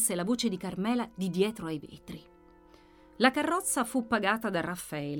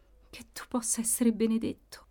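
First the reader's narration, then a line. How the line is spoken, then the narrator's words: Murmur, somewhat reassured. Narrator (Italian): mormorava lei, un po' rassicurata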